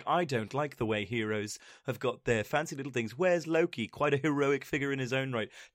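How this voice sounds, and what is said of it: Poor imitation of another person's voice. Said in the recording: “Terrible Tom Hiddleston impression.”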